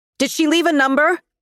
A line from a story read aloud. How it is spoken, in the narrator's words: shouted